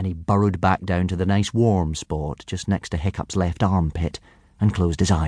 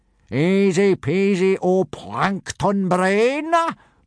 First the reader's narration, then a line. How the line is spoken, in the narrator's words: boomed Gobber, very pleased with himself